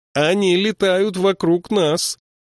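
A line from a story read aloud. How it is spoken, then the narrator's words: Near-shouting over crows. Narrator (Russian): Бенабику пришлось почти кричать, потому что вороны принялись громко каркать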